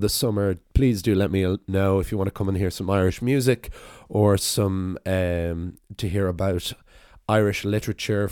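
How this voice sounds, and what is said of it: Hoarse, rough voice. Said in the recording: “my voice is permanently at this level of hoarseness. ... I'll be talking like Tom Waits by the end of the summer”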